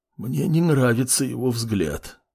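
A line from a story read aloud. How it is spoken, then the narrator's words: Wheezy, breathless. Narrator (Russian): просипел мужчина, когда отдышался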